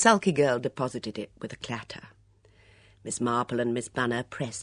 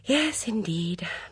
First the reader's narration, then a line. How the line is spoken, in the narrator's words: Miss Banner sighed